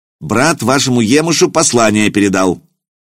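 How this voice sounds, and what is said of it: Angry shout with a foreign accent. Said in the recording (Russian): “сердито крикнул Акиба с характерным акцентом.”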